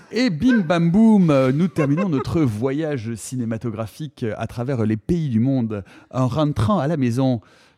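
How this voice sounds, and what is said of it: Put-on accent. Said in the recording (French): “Je sais pas pourquoi je prends cet accent.”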